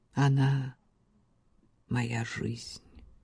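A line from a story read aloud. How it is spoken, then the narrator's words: Quiet reply. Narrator (Russian): тихо ответил Ботвелл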